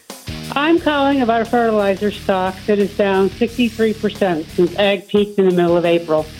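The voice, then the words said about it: Noticeable regional American accent. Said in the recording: “Love your accent. Nice. I feel at home.”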